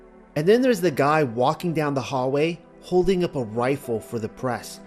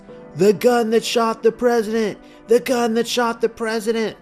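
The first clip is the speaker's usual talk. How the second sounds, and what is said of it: Deliberately bad shouted impression. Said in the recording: “terrible impression,”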